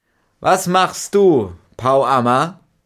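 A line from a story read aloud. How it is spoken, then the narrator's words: Loud call. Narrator (German): rief laut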